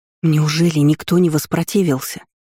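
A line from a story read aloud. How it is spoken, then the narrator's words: Hissed. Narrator (Russian): зашипела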